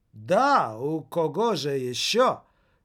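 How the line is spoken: Irritated exclamation. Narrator (Russian): с раздражением воскликнула она

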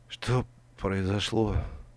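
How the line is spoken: Barely audible moan. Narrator (Russian): едва слышно простонала

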